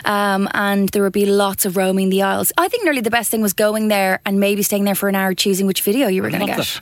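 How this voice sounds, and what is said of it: Slight Irish accent. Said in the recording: “you're from Ireland ... there's some slight thing in the accent”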